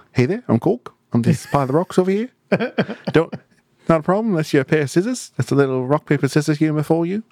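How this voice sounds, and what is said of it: Put-on New Zealand accent. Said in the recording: “that was a pretty good Kiwi accent”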